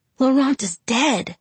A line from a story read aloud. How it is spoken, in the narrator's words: I gasped